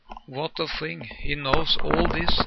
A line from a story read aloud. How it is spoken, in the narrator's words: I murmured in a low voice to myself